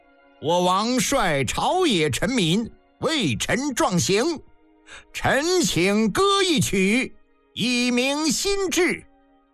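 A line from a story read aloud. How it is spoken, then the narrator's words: Loud, flushed. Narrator (Chinese): 赵括顿时面颊绯红，高声道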